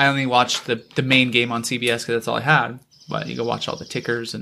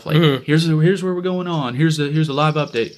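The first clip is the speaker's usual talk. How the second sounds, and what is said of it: Imitates another person's voice. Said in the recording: “your Barkley impression? It's pretty good.”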